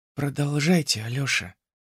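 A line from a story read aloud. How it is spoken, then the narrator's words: Quiet, gentle. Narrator (Russian): тихо сказала Зиночка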